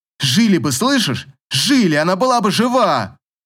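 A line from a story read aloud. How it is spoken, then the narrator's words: Unrestrained shout. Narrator (Russian): крикнула Катя, не сдерживаясь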